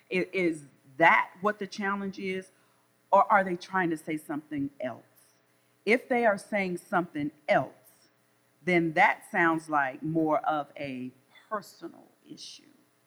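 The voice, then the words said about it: Southern US drawl. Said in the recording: “I'm from the South, so I know I have a Southern drawl.”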